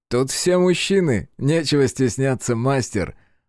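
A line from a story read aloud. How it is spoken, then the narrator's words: Laughing. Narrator (Russian): засмеялся Иель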